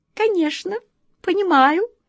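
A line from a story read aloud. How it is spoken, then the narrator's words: Thin sharp little voice. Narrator (Russian): тонким острым голоском откликнулась ласточка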